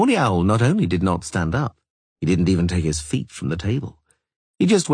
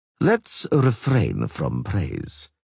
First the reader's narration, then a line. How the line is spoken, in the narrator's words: Skellen said coolly